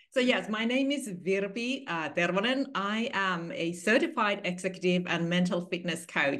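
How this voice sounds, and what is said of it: Finnish accent. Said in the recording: “I love your accent, and you did say your name a lot more exotically than I did ... in my home country, which is Finland”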